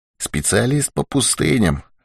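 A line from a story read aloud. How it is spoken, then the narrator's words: Whisper. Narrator (Russian): шепнул Дауги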